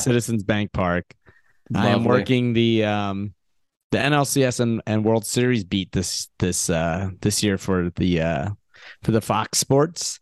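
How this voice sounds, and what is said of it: Rough, strained, partly lost voice. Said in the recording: “Your voice sounds like crap ... I lost my voice”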